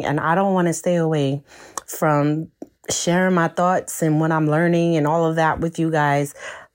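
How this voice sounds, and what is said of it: Voice altered by illness. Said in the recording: “my voice sounds a little different to you, it is because I've been under the weather for about a week or so”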